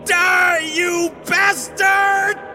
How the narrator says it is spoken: one final scream

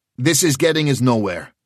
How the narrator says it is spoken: he said sharply

